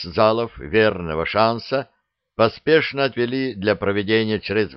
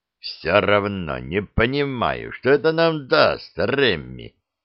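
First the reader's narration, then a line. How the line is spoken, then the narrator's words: Grumbling. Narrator (Russian): проворчал Аран Стронг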